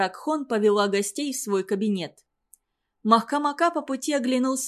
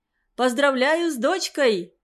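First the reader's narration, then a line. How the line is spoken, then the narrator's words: Shout. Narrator (Russian): крикнул Махкамака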